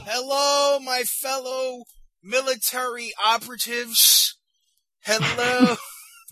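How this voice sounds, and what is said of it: Sarcastic greeting. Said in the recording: “that was sarcasm”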